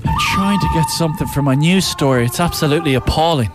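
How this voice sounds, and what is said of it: Out of breath, panting speech. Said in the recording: “I'm out of breath. ... You're after running.”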